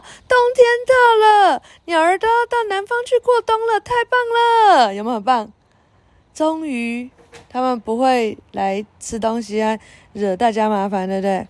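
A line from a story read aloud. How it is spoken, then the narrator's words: Excited shout. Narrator (Chinese): 珍妮兴奋大叫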